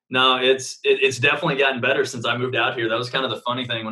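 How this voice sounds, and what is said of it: Oklahoma accent. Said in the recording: “this Oklahoma accent and everybody trying to figure out what the hell I'm actually saying ... my accent was so thick”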